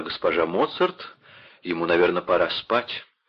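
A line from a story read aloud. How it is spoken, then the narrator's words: Softer. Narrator (Russian): более мягко сказала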